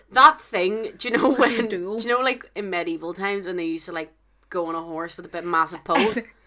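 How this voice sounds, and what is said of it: Belfast Northern Irish accent. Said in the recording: “It's our accent, honestly. I apologize. I can only apologize on behalf of everyone from Belfast.”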